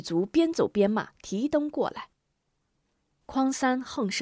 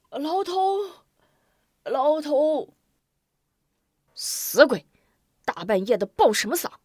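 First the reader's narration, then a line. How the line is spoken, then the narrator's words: Loud calling out. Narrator (Chinese): 匡三便高声呼喊狱卒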